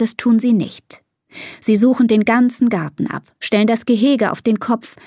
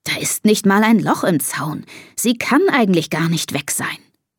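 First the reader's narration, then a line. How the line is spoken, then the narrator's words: Murmured. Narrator (German): murmelt Papa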